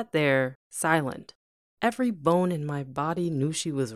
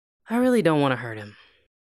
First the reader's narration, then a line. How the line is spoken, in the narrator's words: I mumbled